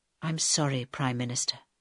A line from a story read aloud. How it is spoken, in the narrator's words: said Michael softly